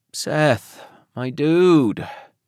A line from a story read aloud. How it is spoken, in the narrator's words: Marcus groaned